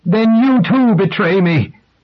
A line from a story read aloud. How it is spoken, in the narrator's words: Rachel cried out